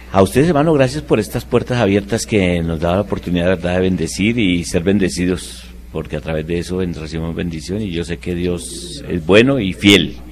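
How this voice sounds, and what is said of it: Radio announcer-like voice. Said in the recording (Spanish): “Tiene voz de locutor también ... tenía voz de locutor”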